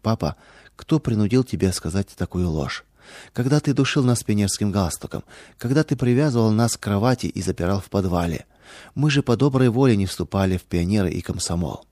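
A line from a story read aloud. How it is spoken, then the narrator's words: Sad question. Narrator (Russian): дочери печально спросили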